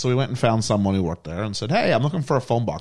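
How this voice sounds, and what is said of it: Noticeable foreign accent. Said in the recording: “I know you're hearing the accent.”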